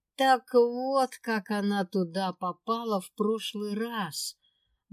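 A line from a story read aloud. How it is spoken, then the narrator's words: Exclamation. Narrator (Russian): Воскликнула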